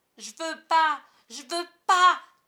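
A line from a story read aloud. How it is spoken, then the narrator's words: Shouting. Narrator (French): criait Michael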